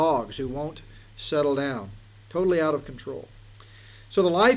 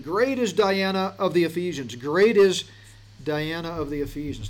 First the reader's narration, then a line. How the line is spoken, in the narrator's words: they all once again cried out in this mob mentality